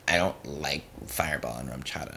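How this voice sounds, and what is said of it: Complaining imitation of another person's voice. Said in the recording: “Was that your Hoey impression? ... No, that was just a complaining. ... That was a complaining Hoey impression? ... Voice is deeper than that”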